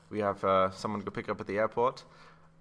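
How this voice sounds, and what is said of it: English accent. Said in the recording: “You said that in an English accent. I know I did. I did not mean to”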